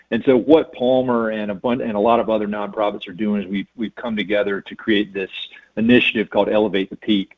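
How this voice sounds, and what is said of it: North Carolina accent. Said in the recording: “You can tell from this accent, I'm not from here originally. I'm from North Carolina”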